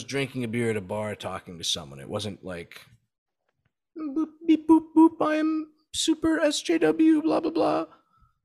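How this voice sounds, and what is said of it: Mocking caricature voice. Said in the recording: “This is my leftist impression.”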